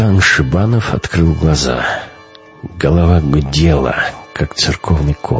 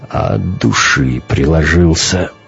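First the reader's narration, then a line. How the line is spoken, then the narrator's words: Muttered. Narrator (Russian): пробормотал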